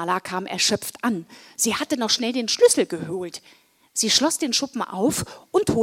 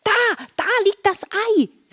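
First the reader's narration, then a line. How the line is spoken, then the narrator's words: Excited shout. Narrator (German): rief Marla aufgeregt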